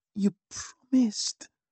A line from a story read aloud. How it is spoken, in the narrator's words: Oriente hissed in my ear, sounding annoyed